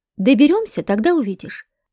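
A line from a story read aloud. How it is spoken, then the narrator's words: Wry grunt. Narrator (Russian): хмыкнул я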